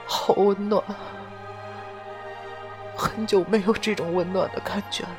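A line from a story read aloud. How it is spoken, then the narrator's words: Murmuring. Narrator (Chinese): 杜飞宇喃喃的说道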